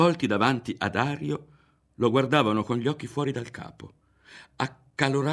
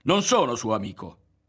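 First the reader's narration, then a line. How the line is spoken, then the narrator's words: Shouted. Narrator (Italian): fu l'unica cosa che gridò Ario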